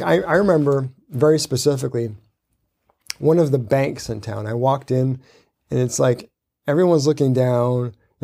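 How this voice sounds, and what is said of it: Hoarse, strained, fading voice. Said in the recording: “Losing my voice after 3 days of speaking.”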